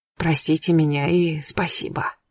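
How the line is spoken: Quiet old woman. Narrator (Russian): старушка сказала тихо

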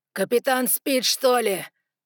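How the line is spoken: Growled. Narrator (Russian): прорычал Ноа

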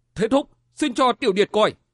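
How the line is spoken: Shaken cry. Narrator (Vietnamese): Từ Văn chấn động tâm thần, bất giác la lên

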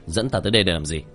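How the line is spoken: Cold shout. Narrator (Vietnamese): Tiểu Thất lạnh lùng ... quát lên

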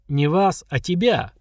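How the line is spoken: Snorting. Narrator (Russian): хмыкнул Киран

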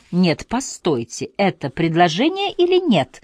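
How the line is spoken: Inquisitive, cheerful. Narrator (Russian): Повторила пытливо и весело

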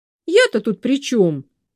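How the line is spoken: Angry. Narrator (Russian): сердито сказала Саша

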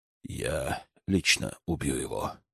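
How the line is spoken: Flat, indifferent voice. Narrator (Russian): все таким же равнодушным голосом сказал Кураями

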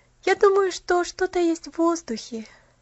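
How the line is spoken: Happy sigh. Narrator (Russian): счастливо вздохнула Поллианна

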